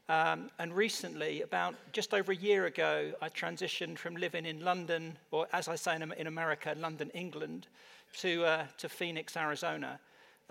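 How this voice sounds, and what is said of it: British English accent. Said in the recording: “For those of you that can't tell from my accent, I'm not naturally American. I actually come from the UK.”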